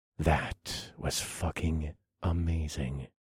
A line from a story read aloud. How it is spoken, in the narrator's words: I whispered into her ear